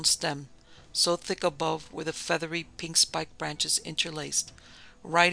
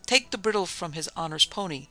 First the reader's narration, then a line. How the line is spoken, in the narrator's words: cried a venerable pantaloon breathlessly